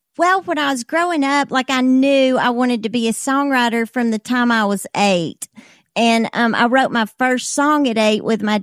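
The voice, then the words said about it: Alabama accent. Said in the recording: “Gadsden, Alabama is where you're from, if people can't recognize the accent.”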